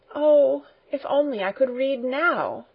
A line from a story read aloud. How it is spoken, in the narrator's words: Heidi, with a sigh, exclaimed